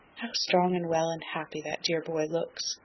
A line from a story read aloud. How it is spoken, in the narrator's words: said softly, as if to herself